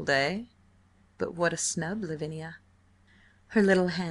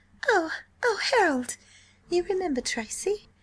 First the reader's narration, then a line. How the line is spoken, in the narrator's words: She said nervously